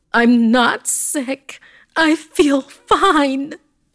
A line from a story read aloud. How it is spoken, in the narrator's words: I heard her scream